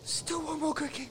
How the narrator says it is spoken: although the poor girl was so stiff and numb, she could only gasp

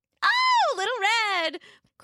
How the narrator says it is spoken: exclaimed happily

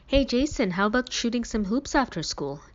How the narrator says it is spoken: Dad asked

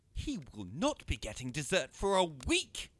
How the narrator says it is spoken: she said indignantly

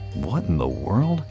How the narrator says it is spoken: Earl mutters to himself

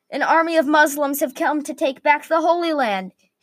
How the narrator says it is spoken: repeated what he had yelled

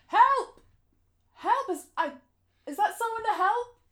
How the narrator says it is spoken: Shouting

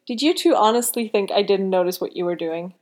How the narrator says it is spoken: Liam giggled

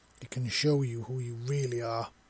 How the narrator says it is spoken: Visa said gruffly, but also softly

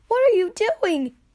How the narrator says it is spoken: Jax yelled

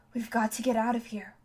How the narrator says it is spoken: whispered Catherine

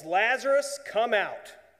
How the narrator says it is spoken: Jesus prays and then yells

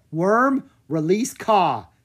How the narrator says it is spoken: Drake called out

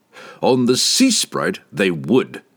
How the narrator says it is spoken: roared the captain

